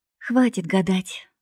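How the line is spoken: Sighing. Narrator (Russian): вздохнула подружка

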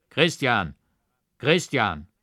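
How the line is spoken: Deep rough voice from above. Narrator (German): eine tiefe, raue Stimme rief herab

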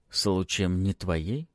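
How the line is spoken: Calm question. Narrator (Russian): спокойно спрашиваю я

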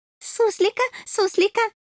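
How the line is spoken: Joyful. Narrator (Russian): Радостно закивал незнакомец

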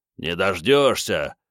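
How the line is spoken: Growled reply. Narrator (Russian): рыкнул в ответ капитан

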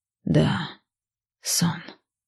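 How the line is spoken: Whisper. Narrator (Russian): прошептала я

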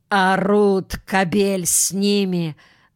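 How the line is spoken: Spiteful thin woman. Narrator (Russian): злобно отвечала другая, тощая, как сухая треска

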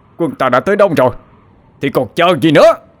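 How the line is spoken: Shouting. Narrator (Vietnamese): Đoạn Trịnh Minh hét lên

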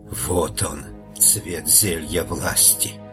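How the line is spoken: Whisper. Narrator (Russian): она прошептала

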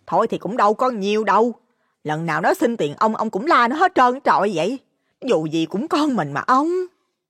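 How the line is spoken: Hurried, placating. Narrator (Vietnamese): bà Hồng cũng vội khuyên

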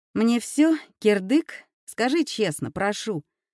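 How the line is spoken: Terrified, forced-out words. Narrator (Russian): Холодея от ужаса, выдавила Юля

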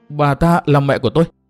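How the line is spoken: Trembling, shocked question. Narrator (Vietnamese): Ngọc Hà run rẩy, mặt cắt không còn tí máu, hỏi

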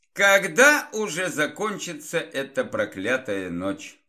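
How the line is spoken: Grumbling. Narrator (Russian): пробурчал некромант

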